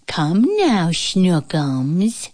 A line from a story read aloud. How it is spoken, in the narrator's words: cooed